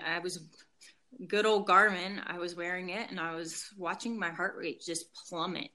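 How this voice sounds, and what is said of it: Shaky, trembling emotional voice. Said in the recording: “my voice is starting to shake just because it just becomes very real anytime I talk about this”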